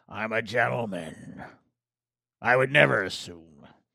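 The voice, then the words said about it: Pirate-like voice. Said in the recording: “I don't know why I'm sounding like a pirate.”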